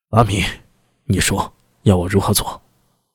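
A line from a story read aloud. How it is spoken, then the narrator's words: Flushed, deep grave voice. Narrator (Chinese): 薛礼面孔涨红，深吸了口气，沉声道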